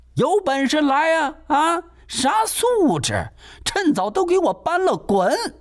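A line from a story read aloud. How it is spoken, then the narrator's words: Shouting from outside. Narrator (Chinese): 郑阳娇还在房外喊呢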